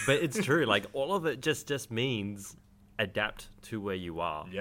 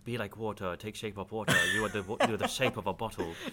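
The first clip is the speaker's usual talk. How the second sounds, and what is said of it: Imitates another person's accent. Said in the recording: “I'm allowed to make that accent.”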